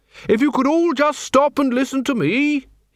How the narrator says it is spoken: he bellowed

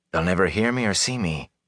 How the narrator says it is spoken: whispered to himself

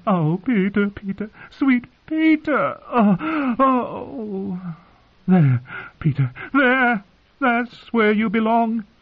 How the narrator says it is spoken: Lisa's cries

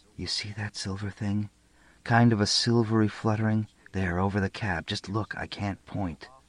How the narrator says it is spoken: She whispered

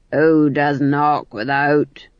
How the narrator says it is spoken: growled

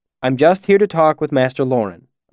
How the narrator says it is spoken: I said quickly

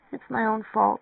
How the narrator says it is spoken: she murmured

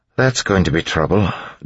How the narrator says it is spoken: Doxson said, sighing

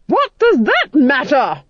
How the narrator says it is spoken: she roared

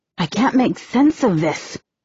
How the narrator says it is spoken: she grumbles

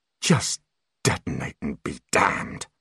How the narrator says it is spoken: growled Holly

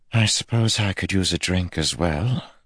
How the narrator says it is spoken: Pivara said with a sigh

